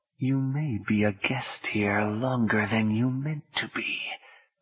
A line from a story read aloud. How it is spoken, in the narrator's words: a voice murmured in Orlando's ear, a distinctly menacing voice